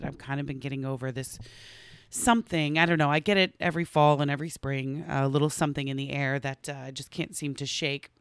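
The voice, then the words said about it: Hoarse, strained, fading voice. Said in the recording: “as you can hear, I'm actually losing my voice a little bit”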